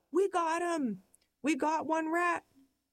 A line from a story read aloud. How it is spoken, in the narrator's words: We're hyperventilating, our hands are shaking, and we yell